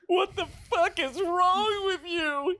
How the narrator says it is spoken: he cried

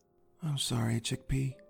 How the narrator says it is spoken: said, very quietly

